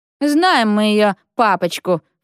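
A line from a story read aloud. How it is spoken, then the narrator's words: Snorted. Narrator (Russian): фыркнула Рита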